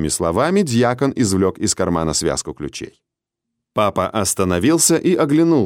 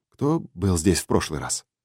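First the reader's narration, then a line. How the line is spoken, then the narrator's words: Near-whispered question. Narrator (Russian): спросил он почти шепотом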